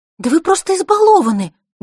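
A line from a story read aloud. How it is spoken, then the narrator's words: Heated exclamation. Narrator (Russian): горячо воскликнула она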